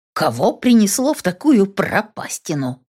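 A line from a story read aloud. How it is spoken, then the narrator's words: Grumbling. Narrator (Russian): проворчала Елена Викторовна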